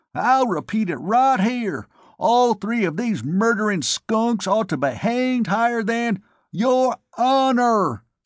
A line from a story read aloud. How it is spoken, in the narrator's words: Sidney almost screamed